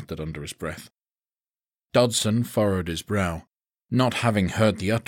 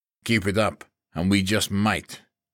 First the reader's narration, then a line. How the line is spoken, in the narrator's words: he snapped